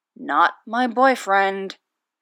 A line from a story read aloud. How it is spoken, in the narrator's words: Derek mumbles